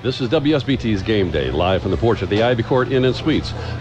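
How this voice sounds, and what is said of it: Radio announcer voice. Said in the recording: “Can I just do it in my radio voice?”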